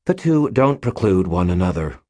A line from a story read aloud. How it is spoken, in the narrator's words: Butters said with a sigh